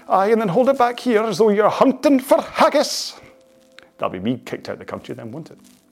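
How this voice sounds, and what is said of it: Exaggerated Scottish character voice. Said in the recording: “That's my Gardener Willie impression”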